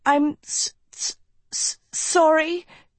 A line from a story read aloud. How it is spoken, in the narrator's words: she stammered